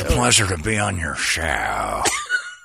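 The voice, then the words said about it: Imitates another person's voice. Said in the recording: “doing my impression of him”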